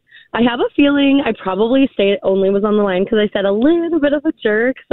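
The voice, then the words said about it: Scratchy, cracking voice. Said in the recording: “Sorry about my voice. ... it's a little scratchy. ... It's just a little cracky”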